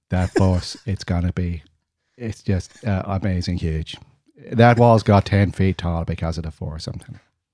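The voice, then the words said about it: Donald Trump impression with Irish twang. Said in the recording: “Terrible impressions ... Donald Trump's become Irish ... a twang, a little bit of Irish twang in there, followed with a little bit of Gungan”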